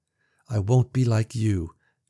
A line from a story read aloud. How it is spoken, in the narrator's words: she vowed, her voice trembling but hard as iron